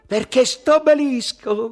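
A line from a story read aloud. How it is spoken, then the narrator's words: Shouted. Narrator (Italian): gridò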